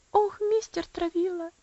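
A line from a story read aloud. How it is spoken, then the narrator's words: Sobbing. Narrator (Russian): всхлипнула она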